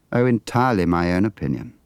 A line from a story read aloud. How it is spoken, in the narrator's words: said